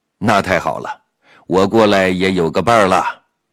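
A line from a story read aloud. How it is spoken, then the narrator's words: Laughing. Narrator (Chinese): 侯亮平笑着说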